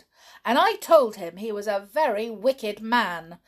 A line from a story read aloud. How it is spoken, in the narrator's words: ended triumphantly